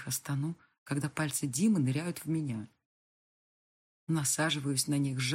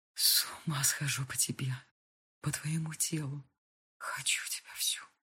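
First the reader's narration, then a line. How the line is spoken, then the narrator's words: Quiet murmuring. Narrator (Russian): тихо приговаривает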